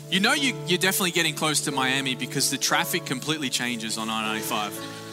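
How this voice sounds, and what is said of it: Australian accent. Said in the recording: “Are you catching up with my accent? ... sometimes it takes just a minute to calibrate ... greetings from Australia”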